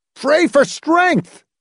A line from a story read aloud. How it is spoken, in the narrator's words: Hamilton shouted back